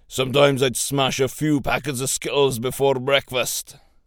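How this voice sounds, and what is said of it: Put-on Scottish accent. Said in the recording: “That was my best Scottish accent.”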